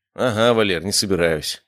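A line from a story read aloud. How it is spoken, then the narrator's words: Snorting. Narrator (Russian): хмыкнул я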